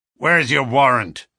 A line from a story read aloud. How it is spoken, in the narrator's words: asked McGinty